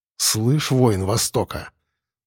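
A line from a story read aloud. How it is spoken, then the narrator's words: Harsh metallic gritted voice. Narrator (Russian): Зло процедил я, нагнав в голос побольше ржавого металла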